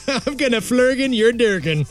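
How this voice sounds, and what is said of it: Mock Swedish accent. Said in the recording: “Swedish accent”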